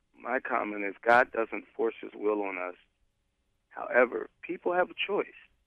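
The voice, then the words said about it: Hoarse, sore-throated voice. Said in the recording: “I have a sore throat.”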